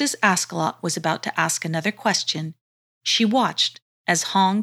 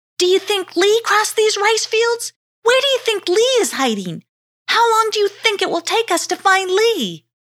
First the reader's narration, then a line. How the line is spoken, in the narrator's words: she shouted across the fields